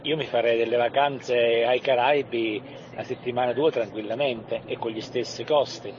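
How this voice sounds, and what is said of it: Neapolitan Italian accent. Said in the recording (Italian): “Da Napoli, velocemente da Napoli. ... l'accento napoletano.”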